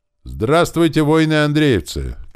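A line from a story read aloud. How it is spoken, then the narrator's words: Shouted. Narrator (Russian): крикнул Ворон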